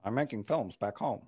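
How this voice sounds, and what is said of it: Imitates another person's voice. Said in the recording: “You're very good impression.”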